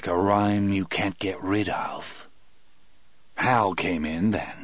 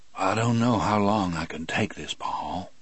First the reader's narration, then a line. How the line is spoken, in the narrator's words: said in a low voice